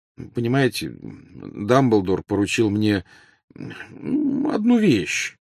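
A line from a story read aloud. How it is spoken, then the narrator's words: Mumbled. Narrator (Russian): промямлил Гарри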